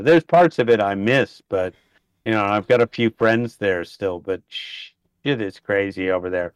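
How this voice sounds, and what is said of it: American accent. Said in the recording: “You may have noticed from the accent, I am an American, but I've lived here in Australia for 30 years”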